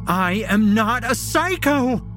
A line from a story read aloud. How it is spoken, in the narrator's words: She screams